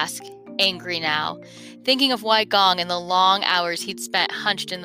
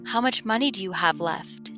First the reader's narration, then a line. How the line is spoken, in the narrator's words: Jing whispers, trying not to wake Li